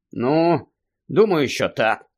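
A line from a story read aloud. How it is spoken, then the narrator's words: Sigh. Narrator (Ukrainian): зітхнув Гаррі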